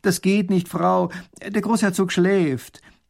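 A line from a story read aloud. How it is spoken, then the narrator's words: Calling to her. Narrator (German): Erich ruft ihr zu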